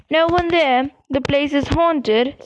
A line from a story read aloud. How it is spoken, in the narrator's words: said Ron